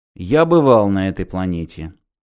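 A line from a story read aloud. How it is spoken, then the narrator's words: Dry. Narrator (Russian): сухо ответил Мартин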